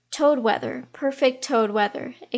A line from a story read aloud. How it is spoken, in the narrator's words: exclaimed old Mr